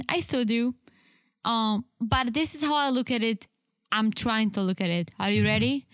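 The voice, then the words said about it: Strong Czech accent in English. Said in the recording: “That is just the ... accent... I've met many Czechs and spoken to many Czechs in my life, and nobody has the accent that you have... my accent is stronger than other people”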